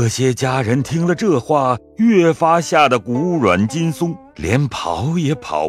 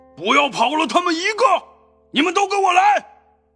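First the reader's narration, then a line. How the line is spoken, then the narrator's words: Shouting. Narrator (Chinese): 那人喊说道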